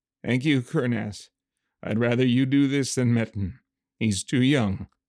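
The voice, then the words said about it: Weak slurred speech with a smile. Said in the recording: “His words were slurring a bit more, but I heard the smile in his voice.”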